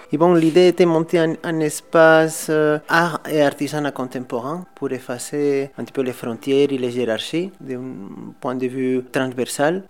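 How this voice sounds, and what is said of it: Spanish accent speaking French. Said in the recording (French): “je suis né à les îles Baléares, à Mallorca, à l'Espagne. L'accent, je crois, que me délate un petit peu.”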